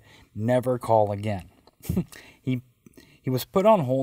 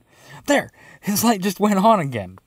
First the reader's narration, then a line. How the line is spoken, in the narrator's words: Dino exclaimed